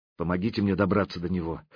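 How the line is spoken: Quiet request. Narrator (Russian): тихо попросила она

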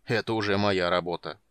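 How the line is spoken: Deep bass voice. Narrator (Russian): пробасил Карамон

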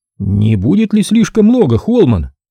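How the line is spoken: Strained exclamation. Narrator (Russian): воскликнул Курти натянутым голосом

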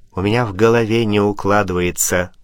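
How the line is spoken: Plain. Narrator (Russian): сказал Пушкин

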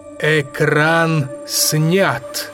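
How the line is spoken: Resonant exclamation, echoed. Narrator (Russian): Звучным голосом воскликнул Тырианин, и эхом откликнулась его жена

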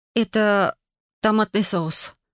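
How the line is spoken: Strangled mutter. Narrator (Russian): сдавленно пробормотала я

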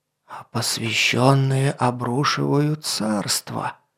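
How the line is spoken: Loud whisper. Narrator (Russian): Громким шепотом закончил

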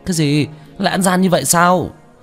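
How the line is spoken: Angry shout. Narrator (Vietnamese): Chu Gia Hào nổi giận hét lên

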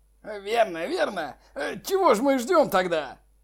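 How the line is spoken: Shouting. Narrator (Russian): Он кричал

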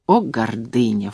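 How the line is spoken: Low-voiced remark. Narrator (Russian): вполголоса заметил он

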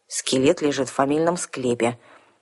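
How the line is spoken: Skeptical mutter. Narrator (Russian): скептически буркнула Арсана

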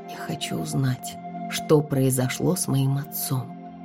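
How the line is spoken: Whisper. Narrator (Russian): прошептала я

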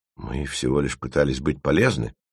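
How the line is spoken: Hurt grumbling. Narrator (Russian): уязвленно проворчал эго

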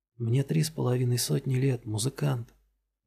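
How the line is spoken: Whisper in ear. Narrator (Russian): прошептала Крина на ухо Мэттоксу

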